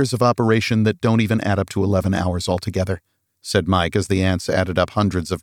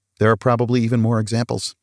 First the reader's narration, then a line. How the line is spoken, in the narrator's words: said Mike